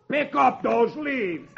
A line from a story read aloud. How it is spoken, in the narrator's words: roars